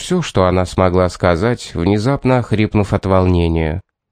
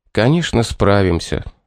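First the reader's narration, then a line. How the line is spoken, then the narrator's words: Gentle reply. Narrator (Russian): ответил ласково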